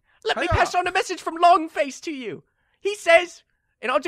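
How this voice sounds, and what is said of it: Usual voice. Nothing is said of it.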